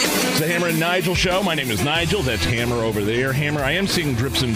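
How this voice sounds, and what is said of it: Usual voice. Nothing is said of it.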